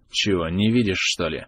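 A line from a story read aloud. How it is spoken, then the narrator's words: Grim reply. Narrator (Russian): мрачно ответил первый, тот, что угрожал Адрусу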